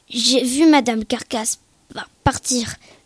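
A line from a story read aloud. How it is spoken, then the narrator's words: Stammering. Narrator (French): balbutia-t-il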